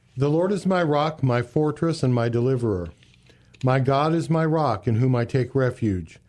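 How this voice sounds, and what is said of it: Deep male voice. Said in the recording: “I love your deep voice and how you sound here”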